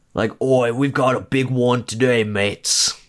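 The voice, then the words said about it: Australian crocodile-hunter impression. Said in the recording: “sounded Australian ... The crocodile hunter”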